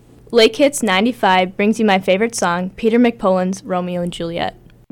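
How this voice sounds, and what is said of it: Announcer-style radio voice. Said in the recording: “in your very best radio voice”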